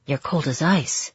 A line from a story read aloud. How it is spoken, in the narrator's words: he whispered into my ear